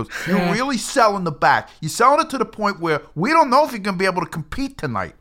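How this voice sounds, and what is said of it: Imitates another person's voice. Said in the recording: “my Vince Russo impression”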